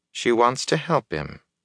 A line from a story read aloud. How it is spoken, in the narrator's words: Nynaeve said calmly